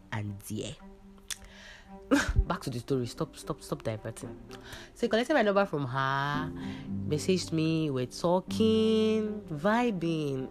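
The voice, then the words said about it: Congested voice with sniffles. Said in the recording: “Sorry, I caught a cold. So, my voice is kind of, you're going to hear a little bit of sniffs here.”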